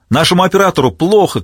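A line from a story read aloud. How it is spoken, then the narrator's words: Shouting. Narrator (Russian): кричал кто-то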